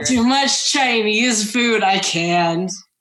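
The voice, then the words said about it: Imitates a Shaolin character's voice. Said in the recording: “My best Shaolin impression.”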